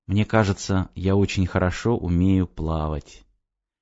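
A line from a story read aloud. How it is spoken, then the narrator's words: Undertone. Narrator (Russian): вполголоса добавил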